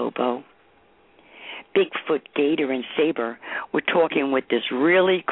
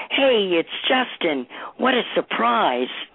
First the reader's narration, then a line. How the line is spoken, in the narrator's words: started shouting